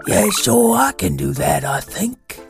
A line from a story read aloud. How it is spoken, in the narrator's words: rasped Zora in her deep, bare voice